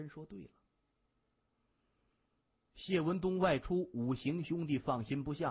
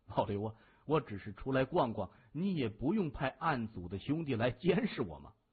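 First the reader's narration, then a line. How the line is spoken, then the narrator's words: Laughing. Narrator (Chinese): 他笑着说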